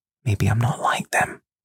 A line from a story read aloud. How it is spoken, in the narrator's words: She reaches up and whispers into my ear